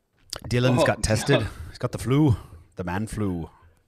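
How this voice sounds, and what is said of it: Put-on Irish accent. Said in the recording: “Wait, what's going on there? ... like I was back home in Belfast or Dublin ... this accent was better than the other one that was proposed”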